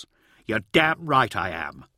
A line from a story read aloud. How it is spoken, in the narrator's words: snapped Honoria